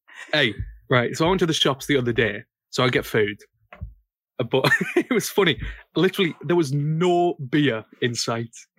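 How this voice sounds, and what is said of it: Northern English accent. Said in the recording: “I live up north, right? This is, you probably know by my accent ... You're northern?”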